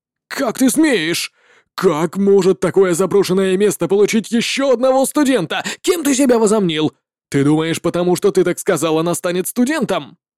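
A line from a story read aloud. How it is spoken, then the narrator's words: Furious incredulous shout. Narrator (Russian): Учитель с Небесной Академии был невероятно зол и закричал в неверии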